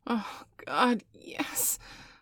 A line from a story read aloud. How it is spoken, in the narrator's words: Bailey gasped